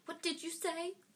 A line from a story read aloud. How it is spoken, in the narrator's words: his aunt snapped through the door